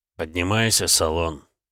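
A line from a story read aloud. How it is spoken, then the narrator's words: Quiet speech. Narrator (Russian): тихо проговорил я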